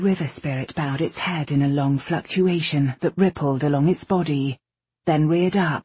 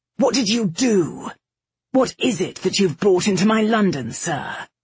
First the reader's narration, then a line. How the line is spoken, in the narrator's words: Kai turned with a snarl